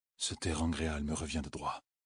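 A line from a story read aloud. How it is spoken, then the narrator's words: Murmuring. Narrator (French): murmurait Rand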